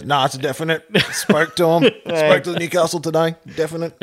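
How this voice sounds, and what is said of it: Imitates another person's voice. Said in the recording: “my best impersonation of like, what's the dude's name”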